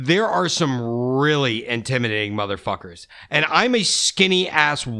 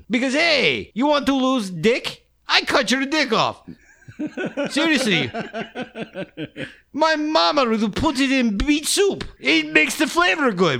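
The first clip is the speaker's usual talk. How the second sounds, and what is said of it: Put-on Russian accent. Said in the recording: “doing a Russian accent.”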